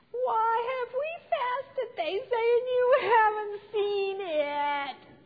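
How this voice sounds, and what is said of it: Whiny voice. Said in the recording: “That's my best whiny voice.”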